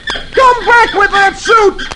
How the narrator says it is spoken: he yells

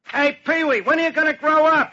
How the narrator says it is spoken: somebody shout at him

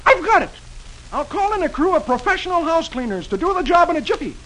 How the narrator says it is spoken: Dagwood exclaims

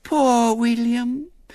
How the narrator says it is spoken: said Violet Elizabeth sweetly

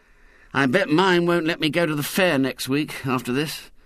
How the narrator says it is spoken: said Ginger gloomily

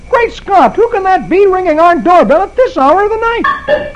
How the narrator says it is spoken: exclaiming

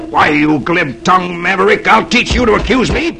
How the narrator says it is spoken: the stranger snarls

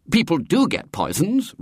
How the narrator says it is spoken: Robert said indignantly

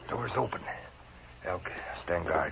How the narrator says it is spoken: he whispered

